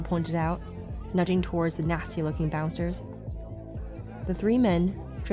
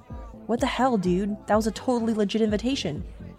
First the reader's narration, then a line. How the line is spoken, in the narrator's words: cried out in protest